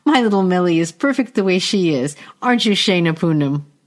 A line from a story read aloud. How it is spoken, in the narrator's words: Melidia giggles